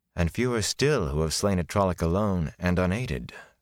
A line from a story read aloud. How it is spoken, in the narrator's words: Moraine said wearily